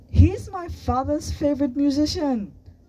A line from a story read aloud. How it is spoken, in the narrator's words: Sunny exclaimed